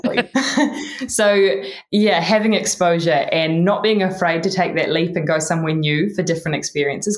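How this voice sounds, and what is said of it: New Zealand accent. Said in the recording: “My Kiwi accent, yes. ... It's more impactful when you say it in a Kiwi accent.”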